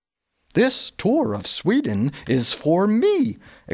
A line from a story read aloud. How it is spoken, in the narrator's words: exclaimed Gustav